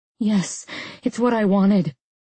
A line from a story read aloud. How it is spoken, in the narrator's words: I groaned, my neck straining